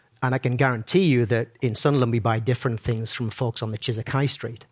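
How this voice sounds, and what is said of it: Sunderland English accent. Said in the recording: “I'm from Sunderland originally, in case you can't tell from my accent.”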